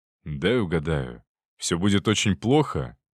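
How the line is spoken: Gloomy. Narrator (Russian): мрачно закончил Виктор

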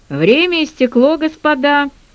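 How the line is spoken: Emphatically official announcement. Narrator (Russian): объявил он подчеркнуто официальным голосом

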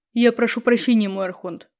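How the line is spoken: Muttered. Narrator (Russian): пробормотал он

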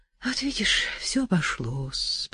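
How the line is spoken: Drowsy whisper. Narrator (Russian): прошептал ей тогда, засыпая, Николенька

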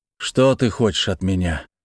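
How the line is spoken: Tired, confused. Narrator (Russian): устало спросил я, плохо понимая, что я несу и что делаю

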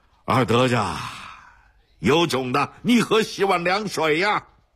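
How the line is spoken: Shouting. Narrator (Chinese): 他冲二德子嚷道

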